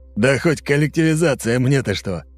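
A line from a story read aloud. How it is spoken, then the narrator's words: Short guffaw. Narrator (Russian): хохотнул человек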